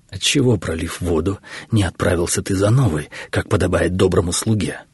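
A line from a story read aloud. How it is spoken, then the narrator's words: Choked, strained voice. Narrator (Russian): Добрый слуга мучительно икнул и выдавил сквозь жесткий спазм, перехвативший его горло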